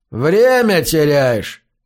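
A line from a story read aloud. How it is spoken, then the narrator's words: Indifferent voice. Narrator (Russian): сказал Слеттер безразличным голосом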